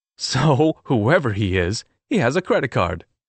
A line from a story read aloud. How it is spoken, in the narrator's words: I laughed